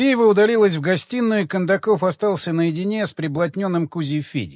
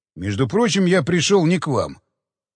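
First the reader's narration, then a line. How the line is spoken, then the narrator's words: Cold reply. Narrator (Russian): холодно ответил Кондаков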